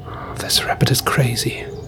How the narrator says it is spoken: Maxime muttered to himself

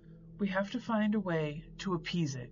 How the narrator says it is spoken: said, her voice trembling

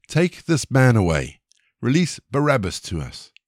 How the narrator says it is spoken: they all cried together

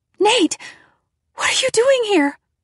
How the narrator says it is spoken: I cried

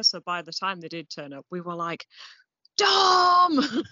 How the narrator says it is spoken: Just screaming him

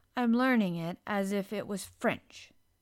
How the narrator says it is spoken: said Mary rather coldly

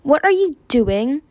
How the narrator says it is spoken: he barked

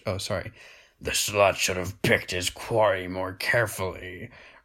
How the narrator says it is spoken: roared in a mocking baritone growl

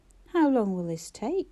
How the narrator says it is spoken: asked warily

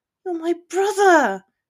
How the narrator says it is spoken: Hermione said urgently

